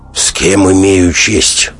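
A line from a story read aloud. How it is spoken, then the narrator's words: Cold inquiry. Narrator (Russian): холодно осведомился Голубин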